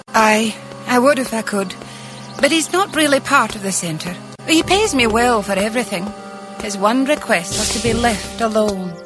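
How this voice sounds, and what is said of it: Badly acted put-on accent. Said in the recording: “she has some of the most atrocious voice acting and accent that I've ever heard. Like, it's so bad.”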